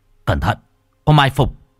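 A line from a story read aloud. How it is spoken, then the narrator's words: Shout. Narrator (Vietnamese): Hoàng Kính vung kiếm mở quát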